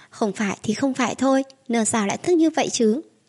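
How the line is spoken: Resentful muttering. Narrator (Vietnamese): Tiêu Thế Nam bị Tào Thị lống cho, chị lẩm bẩm nói

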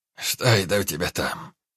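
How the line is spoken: Hoarse voice from behind. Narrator (Russian): хрипло донеслось из-за спины

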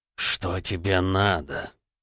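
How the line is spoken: Hoarse voice. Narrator (Russian): хрипло повторил гравер

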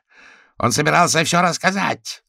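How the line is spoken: Sheep yelling. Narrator (Russian): заорала овца

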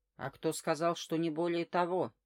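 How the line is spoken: Sudden growl. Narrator (Russian): внезапно прорычал Терентьев

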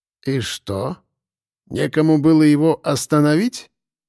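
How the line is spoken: Incredulous drawl. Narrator (Russian): Недоверчиво протянул вождь

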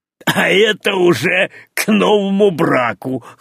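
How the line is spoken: Short laugh. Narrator (Russian): хохотнул Афанасий

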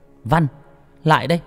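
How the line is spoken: Harsh mother's voice. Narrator (Vietnamese): giọng của mẹ gay gắt

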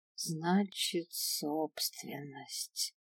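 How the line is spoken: Detached drawl. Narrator (Russian): отстраненно протянула я

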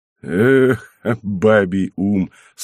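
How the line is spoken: Laughing abbot. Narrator (Russian): смеясь сказал аббат

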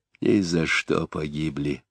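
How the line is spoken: Whispered. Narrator (Russian): прошептал Заров

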